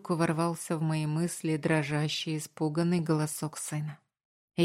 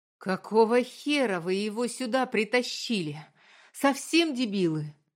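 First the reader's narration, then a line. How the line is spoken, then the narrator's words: Loud furious yell. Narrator (Russian): Заорал я на всю клинику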